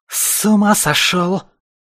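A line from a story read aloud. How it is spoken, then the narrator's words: Furious strained wheeze. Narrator (Russian): Кое-как просипела белка, яростно вырываясь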